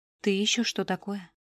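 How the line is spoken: Composed whisper. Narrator (Russian): прошептала Рай, быстро взяв себя в руки

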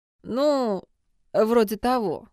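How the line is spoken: Uncertain agreement. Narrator (Russian): неуверенно согласился Джун

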